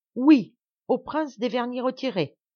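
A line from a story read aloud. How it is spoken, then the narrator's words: Exclamation. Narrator (French): s'écrie M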